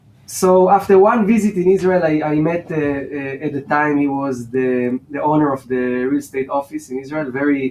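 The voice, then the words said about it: Non-native accent. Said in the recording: “my language skills, my accents ... With your accent, you have no chance to do real estate in Germany”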